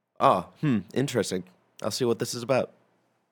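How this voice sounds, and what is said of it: Elon Musk impression. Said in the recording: “Pretty good Musk impression.”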